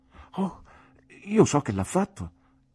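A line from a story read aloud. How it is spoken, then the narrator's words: Exclaimed. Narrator (Italian): esclamai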